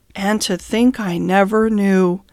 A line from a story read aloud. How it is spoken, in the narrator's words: went on Toad in a dreamy monotone